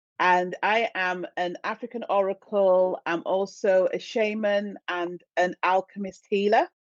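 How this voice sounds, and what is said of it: British accent. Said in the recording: “You can tell by the accent that I'm from the UK.”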